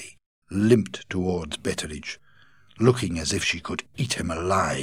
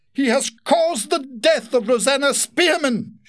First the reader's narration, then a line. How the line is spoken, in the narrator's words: she screamed